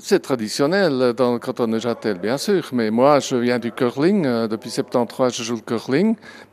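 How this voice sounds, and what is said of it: Slight Swiss German accent in French. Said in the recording (French): “vous avez un petit accent alémanique ... En 30 ans, vous n'avez pas perdu votre accent.”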